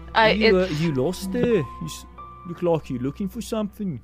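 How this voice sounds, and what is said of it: Innkeeper character voice, slipping accent. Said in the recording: “That accent went somewhere. That was the innkeeper. I used to do his accent better.”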